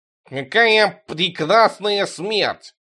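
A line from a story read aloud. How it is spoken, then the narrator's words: Nasal voice. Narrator (Russian): чей-то гнусавый голос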